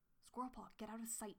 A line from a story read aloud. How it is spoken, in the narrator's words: he hisses